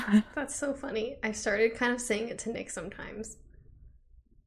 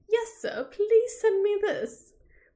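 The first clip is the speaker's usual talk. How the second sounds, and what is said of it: Bad put-on British accent. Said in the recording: “I do really bad British accents”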